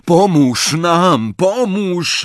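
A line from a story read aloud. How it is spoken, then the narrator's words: Frantic despairing roar. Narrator (Polish): ryknął w szalonej rozpaczy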